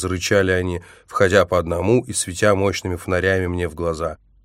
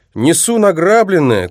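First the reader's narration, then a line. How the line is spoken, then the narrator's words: Shout. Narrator (Russian): крикнул я плечистому водителю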